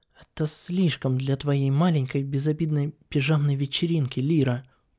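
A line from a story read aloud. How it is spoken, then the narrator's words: Muttering. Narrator (Russian): пробормотала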